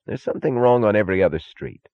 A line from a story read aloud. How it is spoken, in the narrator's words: said Taggart irritably